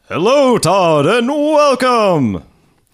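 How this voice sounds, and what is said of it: Announcer voice. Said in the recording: “the announcer on the show. Give us a little announcer voice.”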